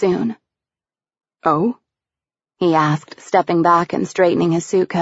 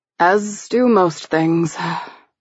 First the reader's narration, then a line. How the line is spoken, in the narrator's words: he said with a sigh